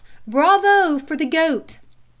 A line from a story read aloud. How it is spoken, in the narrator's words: the crowd ... they called out